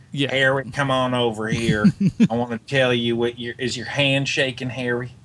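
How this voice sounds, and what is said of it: Put-on Southern American accent. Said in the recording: “why does Norman Osborn have a southern accent?”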